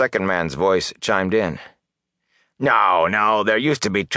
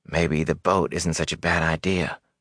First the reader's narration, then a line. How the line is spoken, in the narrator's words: Matt muttered